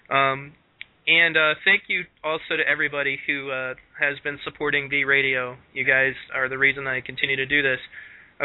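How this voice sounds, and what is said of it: Raspy voice from a cold. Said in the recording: “I just had to develop a nasty cold the day before this interview ... makes you sound sexy ... Sexier than me, I'm going to have to put on my raspy voice”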